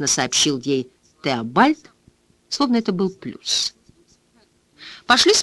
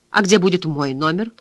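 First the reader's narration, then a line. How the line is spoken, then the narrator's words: Cold question. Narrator (Russian): холодно спросила Джоанна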